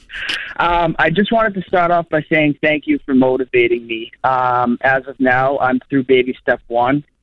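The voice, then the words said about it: Boston accent. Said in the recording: “joins us in my hometown, Boston, Massachusetts ... Thank you for having the accent”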